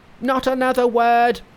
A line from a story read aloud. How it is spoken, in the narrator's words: he cried, stung to the quick